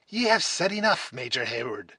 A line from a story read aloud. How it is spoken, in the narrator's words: exclaimed the angry old man